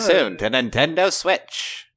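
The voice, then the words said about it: Old-timey radio announcer voice. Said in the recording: “my old-timey radio voice ... You do have a very good old-timey radio voice”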